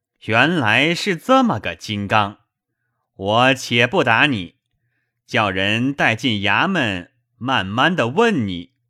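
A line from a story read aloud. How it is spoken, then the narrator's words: Laughing. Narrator (Chinese): 雨村在轿内笑道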